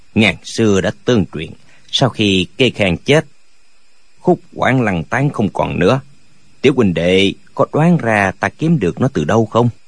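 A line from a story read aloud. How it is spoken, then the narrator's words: Old man, smiling voice. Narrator (Vietnamese): Lão mỉm cười nói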